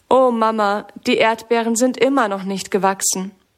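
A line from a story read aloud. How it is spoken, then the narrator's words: Sad. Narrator (German): sagt Sammy traurig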